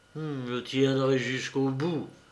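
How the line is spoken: Grumbled through teeth. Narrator (French): grommela-t-il entre ses dents

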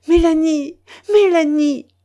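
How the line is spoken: Exclaiming. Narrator (French): s'écria le vicaire

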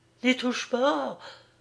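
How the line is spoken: Cry in dying voice. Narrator (French): s'écria-t-elle d'une voix mourante

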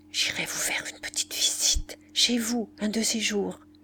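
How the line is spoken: Whispered. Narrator (French): prononça tout bas

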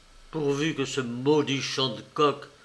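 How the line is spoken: Muttered through teeth. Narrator (French): il grommela entre ses dents

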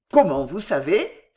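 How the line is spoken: Stunned exclamation. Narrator (French): s'exclama Jehan stupéfait

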